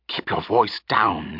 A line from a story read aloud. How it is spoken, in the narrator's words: she hissed